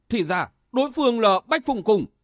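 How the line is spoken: Alarmed exclamation. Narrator (Vietnamese): kinh hãi thốt lên

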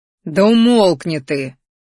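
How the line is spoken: Hostile growl. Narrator (Russian): рыкнул Кер, не пытая крышему положительных чувств

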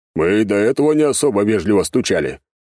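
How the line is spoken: Cat's smirking grunt. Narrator (Russian): хмыкнул кот

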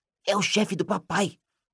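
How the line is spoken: Whispering. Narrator (Portuguese): cochichou Rony

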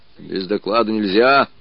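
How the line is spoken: Disconcerted muttering. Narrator (Russian): бормотал обескураженный Мишка

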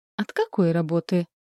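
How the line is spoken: Soft insinuating question. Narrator (Russian): вкрадчиво уточняет

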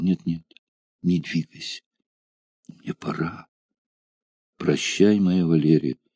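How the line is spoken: Trembling, emotional whisper. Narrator (Russian): шептал ей на ухо, дрожащим от волнения голосом, бедный Рудиарий

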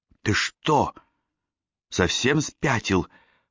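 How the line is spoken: Hissing right in ear. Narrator (Russian): прошипела она мне прямо в ухо

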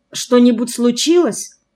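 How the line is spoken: Frightened question. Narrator (Russian): испуганно спросила Лиза

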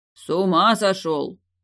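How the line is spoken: Growling after someone. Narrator (Russian): рыкнул ему вслед Далиль

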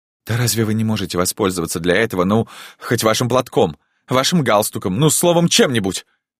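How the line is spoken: Vexed exclamation. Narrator (Russian): досадливо воскликнула она

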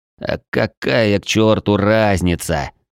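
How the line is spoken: Angry near-growl. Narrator (Russian): Зло едва не прорычал

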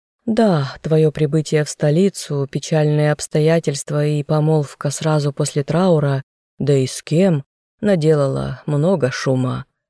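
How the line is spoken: Sigh. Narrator (Russian): вздохнула Николь

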